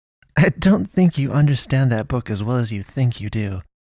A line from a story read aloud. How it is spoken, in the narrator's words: Naomi muttered